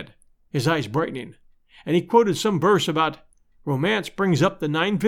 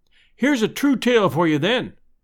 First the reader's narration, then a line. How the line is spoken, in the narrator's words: I cried